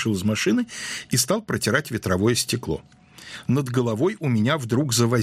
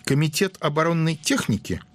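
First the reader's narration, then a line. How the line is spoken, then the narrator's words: Giggling, bearded man. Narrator (Russian): Бородатый хихикнул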